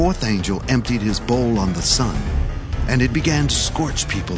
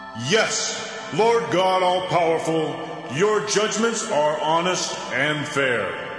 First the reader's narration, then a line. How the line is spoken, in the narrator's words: the altar shout